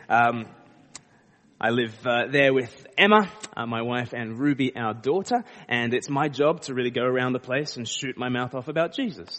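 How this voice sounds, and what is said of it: Australian accent. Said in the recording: “I'm from Australia ... people start to pick up a bit of an accent”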